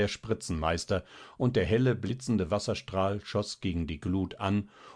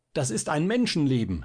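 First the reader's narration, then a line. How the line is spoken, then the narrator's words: Calling down from above. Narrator (German): rief da der Spritzenmeister von seiner Spritze nieder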